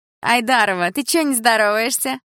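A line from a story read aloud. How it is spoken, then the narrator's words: Mocking, chewing gum. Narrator (Russian): насмешливо спросила Тина, жуя жвачку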